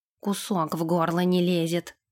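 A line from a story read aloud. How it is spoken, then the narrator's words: Mutter. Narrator (Russian): пробормотал он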